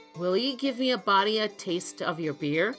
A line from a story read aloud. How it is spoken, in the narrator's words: said Tom